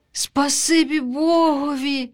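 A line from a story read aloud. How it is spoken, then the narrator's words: Duckling sighing. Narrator (Ukrainian): зітхнула вутятко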